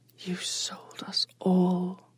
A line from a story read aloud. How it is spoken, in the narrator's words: Onali whispered